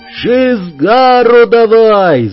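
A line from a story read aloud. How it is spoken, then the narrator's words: Yelling. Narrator (Russian): заорал Сморч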